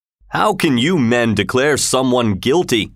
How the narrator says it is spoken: asked in a powerful voice

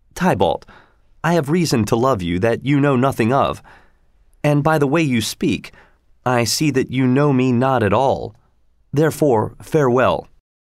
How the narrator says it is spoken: Romeo, however, replied calmly

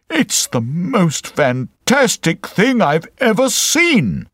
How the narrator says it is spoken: he cried

